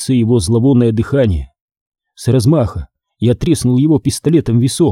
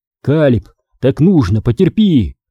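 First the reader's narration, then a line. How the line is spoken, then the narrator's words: Shouting, self-calming. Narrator (Russian): крикнул я, чтобы успокоить не столько его, сколько себя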